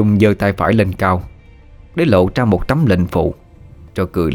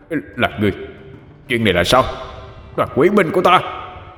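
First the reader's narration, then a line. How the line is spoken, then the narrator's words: Demon's roar. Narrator (Vietnamese): Con quỷ gầm lên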